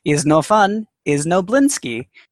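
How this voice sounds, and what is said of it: Slogan read in a put-on accent. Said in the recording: “Why does that written slogan have an accent? ... That's how ... reads it. It's like, have no fun, have no Blinsky. ... Did I read it with an accent?”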